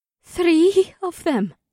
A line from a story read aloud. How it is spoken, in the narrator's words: Amber replied in a strained voice